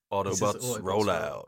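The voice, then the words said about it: Optimus Prime character voice. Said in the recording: “my Optimus Prime impression ... it's a good one”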